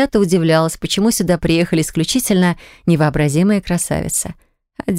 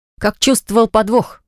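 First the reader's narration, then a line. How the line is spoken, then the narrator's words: Wry snort. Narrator (Russian): хмыкнула я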